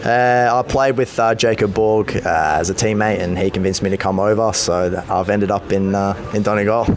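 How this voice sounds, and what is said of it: Australian accent. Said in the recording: “You're obviously the accent, you're Australian”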